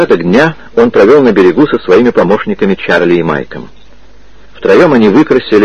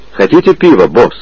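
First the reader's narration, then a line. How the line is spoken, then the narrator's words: Plain. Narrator (Russian): спросил он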